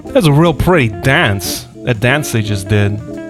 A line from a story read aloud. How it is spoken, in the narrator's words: said Hazel